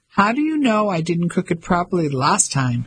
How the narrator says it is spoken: she asked, laughing

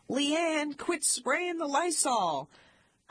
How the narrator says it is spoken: My parents would yell

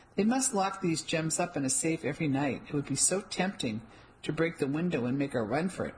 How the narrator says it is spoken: I said with a laugh

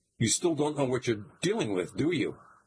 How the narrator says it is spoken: he says in a surprised tone

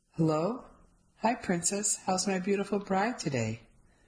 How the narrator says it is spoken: My husband's sexy voice

